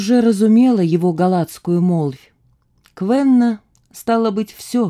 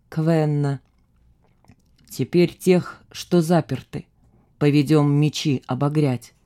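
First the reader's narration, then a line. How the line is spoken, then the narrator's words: Quiet. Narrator (Russian): Вождь … негромко сказал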